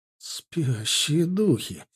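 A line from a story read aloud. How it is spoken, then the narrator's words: Breathless exclamation. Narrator (Russian): выдохнул Ардан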